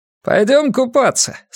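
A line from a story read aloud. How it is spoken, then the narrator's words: High-pitched asking voice. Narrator (Russian): спрашивал ее своим высоким голосом невидимый Петя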